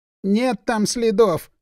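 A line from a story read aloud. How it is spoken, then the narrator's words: Sobbing. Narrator (Russian): разрыдалась подол Сергеевна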